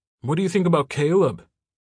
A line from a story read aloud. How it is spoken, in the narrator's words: the paparazzi shouted at him, the name carrying even across the beach